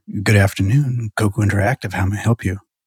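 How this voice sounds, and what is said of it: Sultry, sexy phone voice. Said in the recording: “practicing my phone voice ... I was trying to be very sultry ... trying to get like very sexy about it”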